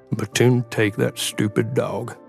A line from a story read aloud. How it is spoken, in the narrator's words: Maze grumbled as he forced his way through a knee-high snowdrift